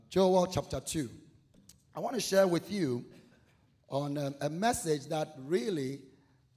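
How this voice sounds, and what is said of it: West African accent. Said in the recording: “give me interpretation of accent... I don't have an accent. Your ear is what has an accent... I'm originally from Ghana, West Africa.”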